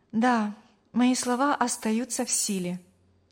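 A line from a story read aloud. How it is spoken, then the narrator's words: Plain. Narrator (Russian): ответила Мария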